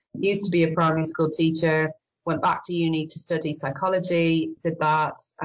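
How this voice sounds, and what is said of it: Irish accent. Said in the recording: “I could probably tell from my accent I'm Irish”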